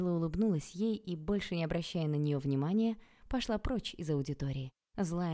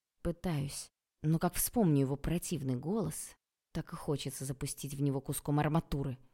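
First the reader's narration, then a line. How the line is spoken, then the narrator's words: Hissing. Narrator (Russian): прошипела я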